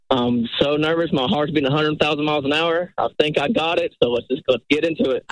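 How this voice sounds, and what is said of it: Regional accent. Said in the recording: “I love the accent.”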